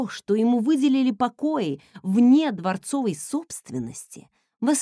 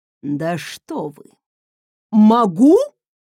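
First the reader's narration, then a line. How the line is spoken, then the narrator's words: Growling. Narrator (Russian): прорычал Люсьен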